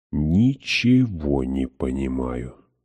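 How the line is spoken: Muttering. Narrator (Russian): пробормотала я

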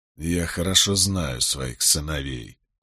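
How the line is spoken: Through gritted teeth. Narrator (Russian): процедил Болейн

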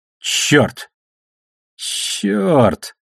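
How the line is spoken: Strained, strangled mutter. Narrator (Russian): сдавленным от перегрузки голосом процедил Алекс

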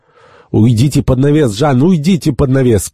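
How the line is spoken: Urgent protective shout. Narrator (Russian): крикнул Жак Элок, желая уберечь юношу от опасности

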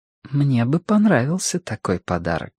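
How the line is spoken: Quiet woman. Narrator (Russian): тихо сказала возлюбленная спутница

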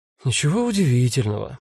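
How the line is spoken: Sighed. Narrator (Russian): вздохнула Таня

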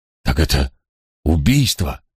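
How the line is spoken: Breathless exhale. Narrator (Russian): выдохнул он

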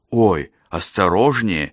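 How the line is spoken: Frightened exclamation. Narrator (Russian): испуганно воскликнула Мария

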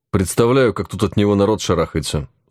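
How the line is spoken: Dry hint. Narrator (Russian): сухо намекнул я Еге

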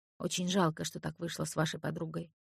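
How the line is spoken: Kindly whisper. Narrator (Russian): шепнула мне одна добрая душа

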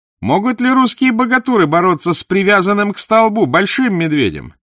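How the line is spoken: Women shouting from above. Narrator (Russian): Жены Батухана сверху закричали

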